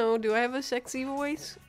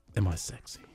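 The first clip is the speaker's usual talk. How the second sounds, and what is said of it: Sexy close-to-mic voice. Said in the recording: “if you get real close to the mic ... the girl voice version of it ... That's the sexy voice.”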